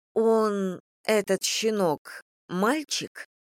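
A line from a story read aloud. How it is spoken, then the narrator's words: Stammering question. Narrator (Russian): заикаясь, спросила я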